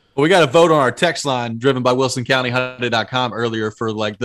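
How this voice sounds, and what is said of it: Middle Tennessee Southern accent. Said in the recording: “your accent, is what? Middle Tennessee? ... old Southern boy, Middle Tennessee.”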